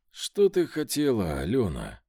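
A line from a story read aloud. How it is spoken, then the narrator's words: Weary question. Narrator (Russian): Устало спросил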